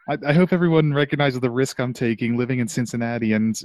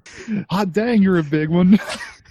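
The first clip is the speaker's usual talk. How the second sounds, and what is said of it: Put-on Southern American accent. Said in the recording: “attempting a southern accent”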